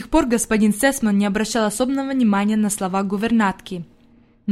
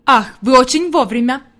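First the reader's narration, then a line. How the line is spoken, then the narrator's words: Exclaiming. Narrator (Russian): воскликнул господин Сесман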